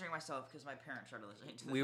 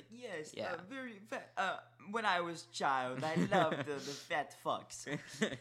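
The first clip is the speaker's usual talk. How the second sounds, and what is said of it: Imitates another person's foreign accent. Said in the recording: “in his accent”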